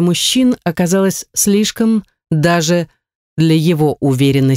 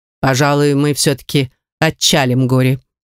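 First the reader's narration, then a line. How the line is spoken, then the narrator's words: Dry, curt. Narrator (Russian): сухо сообщил Белден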